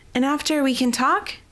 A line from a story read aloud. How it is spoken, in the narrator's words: Yelith called out to her